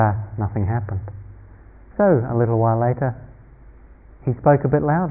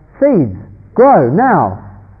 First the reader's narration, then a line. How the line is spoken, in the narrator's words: he was getting a little frustrated at this point and shouted